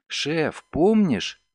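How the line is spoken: Exclaiming. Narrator (Russian): воскликнула Делла

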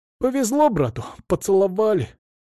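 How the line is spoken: Men laughing. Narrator (Russian): Мужики засмеялись

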